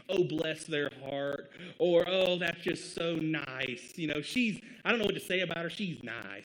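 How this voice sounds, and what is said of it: Put-on Southern accent. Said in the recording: “I'm giving this a Southern accent all of a sudden”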